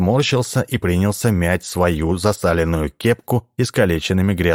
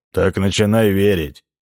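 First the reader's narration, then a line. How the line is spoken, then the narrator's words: Gloomy. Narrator (Russian): мрачно сказал Джонни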